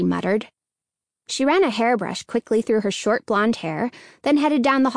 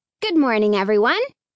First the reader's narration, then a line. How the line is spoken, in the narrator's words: Hannah chirped happily